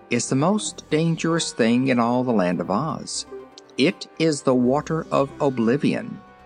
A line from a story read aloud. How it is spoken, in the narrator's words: declared Ozma gravely